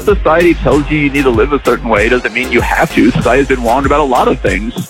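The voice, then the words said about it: Childlike speech, dropped R sounds. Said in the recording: “Did you just drop your R because you're talking like a child? ... talking like a child?”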